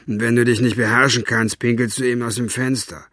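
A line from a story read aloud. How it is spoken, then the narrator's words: Gruff grunt. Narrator (German): grunzte er den alten Mann an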